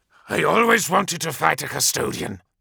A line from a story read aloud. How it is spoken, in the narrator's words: snarled Suba